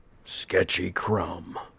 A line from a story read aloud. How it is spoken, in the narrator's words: the shroud announced in Martin's best husky growl